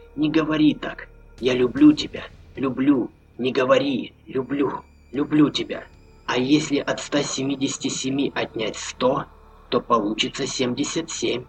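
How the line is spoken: Whispered. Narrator (Russian): прошептала Маша

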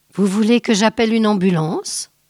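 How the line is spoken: Plain. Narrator (French): demanda le serveur

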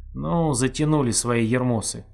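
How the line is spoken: Grumbling. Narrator (Russian): ворчание

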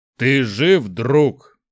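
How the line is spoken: Growling. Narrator (Russian): прорычал Шухрак

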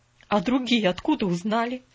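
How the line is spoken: Trembling voice. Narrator (Russian): дрожащим голосом осведомилась мисс Полли

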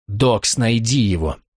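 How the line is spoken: Whisper. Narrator (Russian): Дебора прошептала

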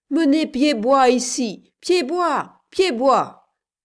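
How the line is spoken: Men shouting. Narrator (French): criaient les hommes

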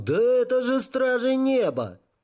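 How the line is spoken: Surprised exclamation. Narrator (Russian): кто-то удивленно воскликнул

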